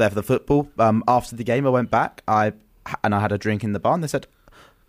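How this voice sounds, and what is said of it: Usual voice. Nothing is said of it.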